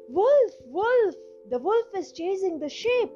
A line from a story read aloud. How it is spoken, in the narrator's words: the shepherd boy cried out once again